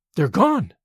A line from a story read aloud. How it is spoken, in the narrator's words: she exclaimed